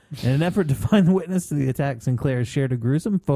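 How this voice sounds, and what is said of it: Usual voice. Nothing is said of it.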